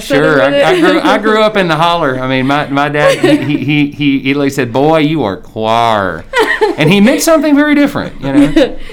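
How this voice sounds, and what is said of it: Southern American accent. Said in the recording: “I love a Southern accent.”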